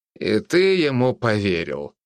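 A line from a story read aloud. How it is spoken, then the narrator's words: Skeptical snort. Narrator (Russian): хмыкнул я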